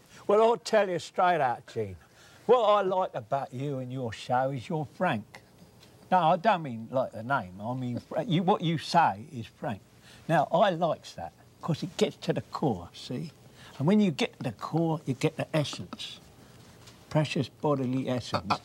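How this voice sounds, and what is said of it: Old-fashioned Cockney accent. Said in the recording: “that's an old sort of Cockney accent.”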